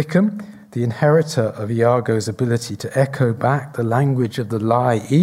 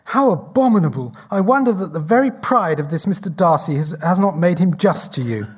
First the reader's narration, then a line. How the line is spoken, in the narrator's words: Elizabeth exclaims